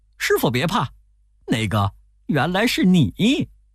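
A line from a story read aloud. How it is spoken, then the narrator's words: Laughing. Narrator (Chinese): 悟空笑着说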